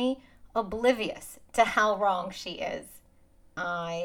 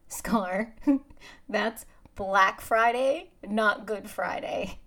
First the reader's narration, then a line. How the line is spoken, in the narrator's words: say, laughing out loud